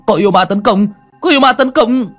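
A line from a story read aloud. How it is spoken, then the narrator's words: Shouting. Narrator (Vietnamese): Tiếng hét của hắn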